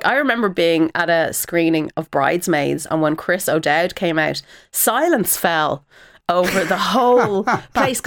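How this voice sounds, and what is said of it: Irish accent. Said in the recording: “your accent because it's an actual Irish accent”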